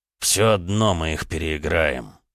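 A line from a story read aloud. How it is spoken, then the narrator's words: Angry addition. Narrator (Russian): злобно добавил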